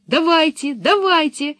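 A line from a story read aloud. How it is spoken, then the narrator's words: Excited shouting. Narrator (Russian): восторженно закричали Томми и Анника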